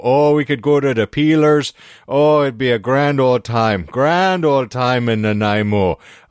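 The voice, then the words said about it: Put-on Newfoundland accent, mildly Irish-sounding. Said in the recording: “Adopting like a Newfie accent ... it sounded like you were doing a tame Irish accent ... that's Newfoundland accent sounds very Irish”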